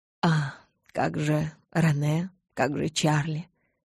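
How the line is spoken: Sigh. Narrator (Russian): Я вздохнула

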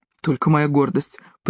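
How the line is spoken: Mutter. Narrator (Russian): пробормотал он

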